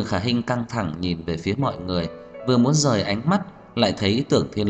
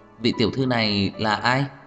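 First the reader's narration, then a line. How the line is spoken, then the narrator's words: Smiling, elegant question. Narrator (Vietnamese): Tiêu Hảo Ánh mỉm cười, tao nhã xinh đẹp hỏi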